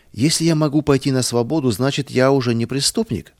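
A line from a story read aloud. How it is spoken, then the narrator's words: Plain. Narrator (Russian): спросил я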